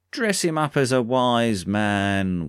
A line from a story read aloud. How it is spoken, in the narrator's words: one of them said, and as they jeered and hollered